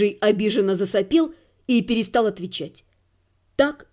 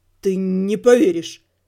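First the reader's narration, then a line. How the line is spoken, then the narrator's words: Stammering answer. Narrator (Russian): запинаясь, ответил Рыжий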